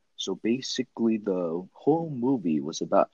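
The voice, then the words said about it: Imitates Agent Smith's voice. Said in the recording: “I'm going to go in my Agent Smith voice tone”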